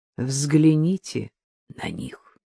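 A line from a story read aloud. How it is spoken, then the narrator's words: Quiet, hidden pride, disabled man. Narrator (Russian): тихо, с затаенной гордостью проговорил инвалид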